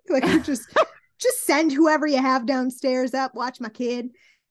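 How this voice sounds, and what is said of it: Put-on accent. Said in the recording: “I don't know where the accent came from.”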